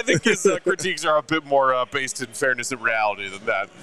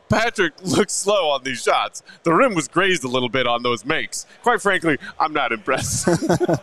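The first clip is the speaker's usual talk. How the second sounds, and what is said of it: Impression of Mark K. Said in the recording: “Pretty good Mark K impression.”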